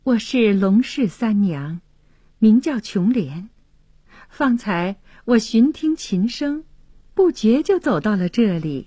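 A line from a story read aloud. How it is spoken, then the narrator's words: Shy, smiling. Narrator (Chinese): 琼莲羞涩的一笑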